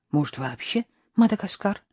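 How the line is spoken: Quiet. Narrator (Russian): тихо проговорила Надежда

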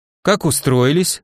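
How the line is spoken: Falsely caring voice. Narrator (Russian): спросил я заботливо фальшивым голосом

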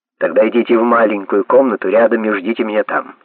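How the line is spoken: Sharp. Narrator (Russian): сказал он резко

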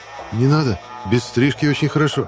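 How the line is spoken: Frightened reply. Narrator (Russian): испуганно ответил я

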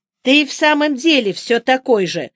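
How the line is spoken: Angry tone. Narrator (Russian): сердитым тоном сказала я

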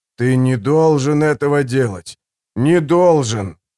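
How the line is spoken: Preacher, wheezing. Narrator (Russian): хрипел проповедник

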